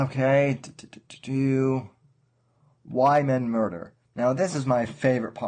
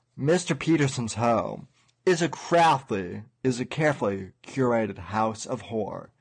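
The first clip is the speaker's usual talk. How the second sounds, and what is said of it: Dramatic imitation of another person's voice. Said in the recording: “my best Orson Welles dramatic impression”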